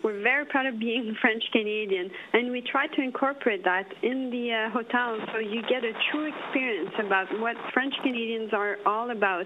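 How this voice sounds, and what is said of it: French-Canadian accent. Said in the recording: “we're very proud to be French-Canadian, as you can tell with my accent”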